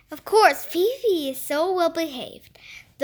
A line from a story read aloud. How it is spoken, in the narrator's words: the man said